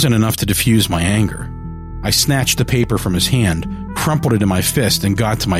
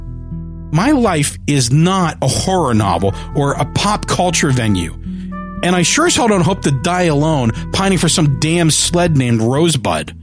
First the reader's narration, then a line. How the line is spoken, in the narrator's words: I yelled